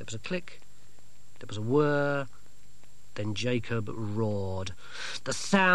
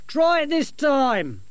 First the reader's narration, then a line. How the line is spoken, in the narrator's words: Dorcas shout